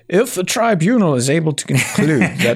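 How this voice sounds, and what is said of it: Put-on lordly upper-class accent. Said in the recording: “do your best Lord's accent ... Normal accent, please.”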